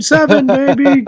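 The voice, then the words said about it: Imitates another person's voice. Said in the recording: “I did a pretty good impression.”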